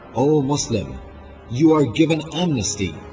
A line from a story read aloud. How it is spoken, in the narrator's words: Aliyah's Muhammad ibn Ash'af cried